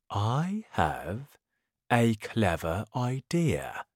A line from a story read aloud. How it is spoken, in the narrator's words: said the crocodile